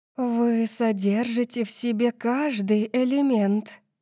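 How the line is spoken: Breathless disbelief. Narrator (Russian): выдохнула Зенит, качая головой, как будто не могла поверить, что это правда

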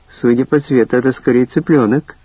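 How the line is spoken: Laughing. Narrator (Russian): рассмеялась я

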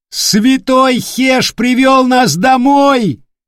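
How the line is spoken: Wild yell. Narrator (Russian): завопил вперед смотрящий

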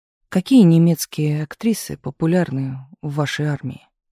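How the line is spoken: Plain question. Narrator (Russian): спросил Туманов

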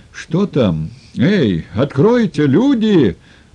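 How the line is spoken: Frantic shouting. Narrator (Russian): Заполошным голосом кричал Сергей Федорович

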